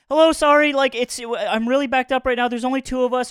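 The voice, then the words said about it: Hurried thick Mexican accent. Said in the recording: “in the most hurried, like thick Mexican accent”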